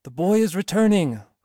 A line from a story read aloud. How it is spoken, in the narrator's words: cried a voice to other voices, who repeated